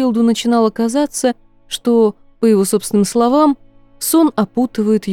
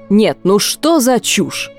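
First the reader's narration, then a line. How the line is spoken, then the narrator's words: Irritated exclamation. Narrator (Russian): раздраженно воскликнул Стрэндж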